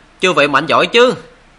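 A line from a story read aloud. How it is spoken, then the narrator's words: Loud, confident greeting. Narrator (Vietnamese): Hắn lớn tiếng chào hỏi đầy phong độ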